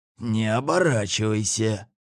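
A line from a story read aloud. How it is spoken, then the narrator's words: Quiet whisper. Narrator (Russian): тихо шепнул Гоша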